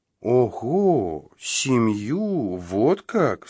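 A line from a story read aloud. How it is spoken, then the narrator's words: Plain. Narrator (Russian): спросила она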